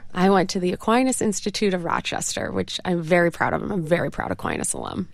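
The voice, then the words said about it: Slight upstate New York accent. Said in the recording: “a little bit of the upstate New York twang”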